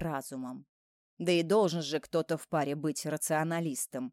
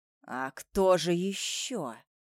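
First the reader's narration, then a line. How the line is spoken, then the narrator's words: Through gritted teeth. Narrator (Russian): цежу я сквозь зубы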